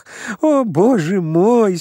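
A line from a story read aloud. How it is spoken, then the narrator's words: Moaning through laughter. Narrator (Russian): стонал он среди смеха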